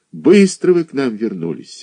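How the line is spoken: Sighed. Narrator (Russian): вздохнул заведующий отделением

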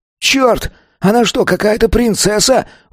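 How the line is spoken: Howl from crowd. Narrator (Russian): взвыл кто-то из толпы

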